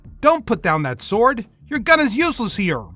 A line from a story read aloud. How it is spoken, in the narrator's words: hollered back